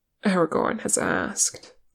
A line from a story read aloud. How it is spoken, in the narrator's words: Legolas answered sadly